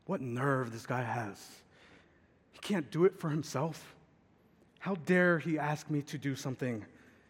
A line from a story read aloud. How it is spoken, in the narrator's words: That is grumbling